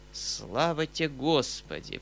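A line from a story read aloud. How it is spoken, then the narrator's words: Muttering to himself. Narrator (Russian): пробормотал про себя Гаврила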